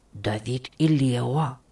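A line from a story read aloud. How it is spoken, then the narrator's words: Whisper. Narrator (Russian): прошептал Денис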